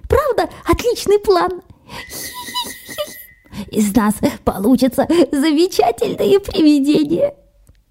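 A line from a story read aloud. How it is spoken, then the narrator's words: Muffled giggling. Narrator (Russian): уткнулся носом в траву, чтобы хихикать не слишком громко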